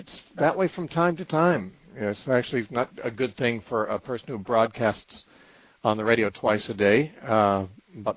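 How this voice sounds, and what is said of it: Strained, on-edge voice. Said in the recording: “my voice is a little bit on edge”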